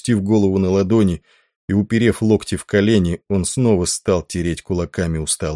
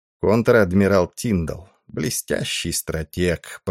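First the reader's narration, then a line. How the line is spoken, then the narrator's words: Low undertone. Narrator (Russian): продолжал он вполголоса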